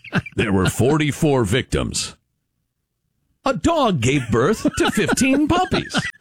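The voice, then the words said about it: Mock newscaster tone. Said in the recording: “Change my tone of voice, like newscasters do.”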